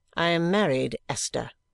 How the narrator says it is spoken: she returned, coldly correcting me

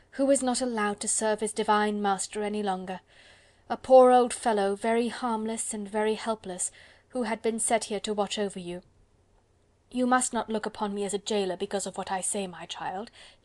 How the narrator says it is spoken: replied the old man, with a deep sigh

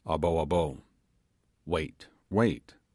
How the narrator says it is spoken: said gravely

